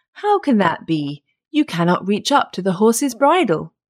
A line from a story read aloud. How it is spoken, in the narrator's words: Then the woodman laughed and said